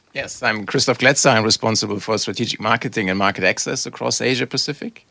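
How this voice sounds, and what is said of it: German accent. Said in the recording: “I'm originally from Germany, as you can tell from the accent.”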